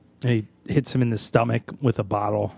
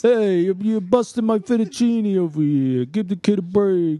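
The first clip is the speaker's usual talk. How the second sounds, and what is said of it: Exaggerated Italian accent imitating Mac. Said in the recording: “Is Mac putting on a subtle Italian accent in this scene? ... That's an Italian air horn.”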